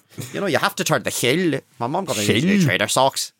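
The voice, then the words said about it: Put-on Northern Irish accent. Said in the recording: “me and Brad just love the Northern Irish accent... me and Brad just did the Northern Irish accent to each other at school”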